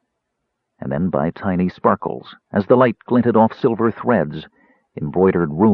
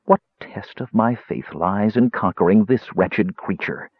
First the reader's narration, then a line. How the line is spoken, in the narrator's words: Quisania demanded of Paladine bitterly